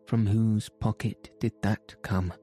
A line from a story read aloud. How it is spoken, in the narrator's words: asked Ganimard